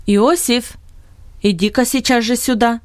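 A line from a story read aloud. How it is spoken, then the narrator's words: Commanding call. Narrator (Russian): приказным тоном позвал Бинет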